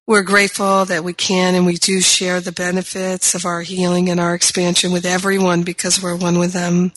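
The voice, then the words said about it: Strained, worn-out voice. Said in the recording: “my voice is a little compromised ... I've kind of been pushing myself hard for the last few days”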